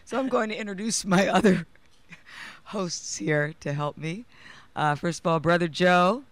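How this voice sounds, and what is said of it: Strained, fading hoarse voice. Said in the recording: “I am losing my voice, especially after emoting with such passion through my poem.”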